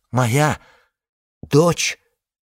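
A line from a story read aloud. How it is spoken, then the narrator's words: Faint exhaled words. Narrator (Russian): шевельнула губами, выдохнула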